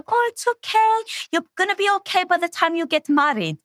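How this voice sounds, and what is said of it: Thick Greek accent. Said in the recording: “in her big thick Greek accent.”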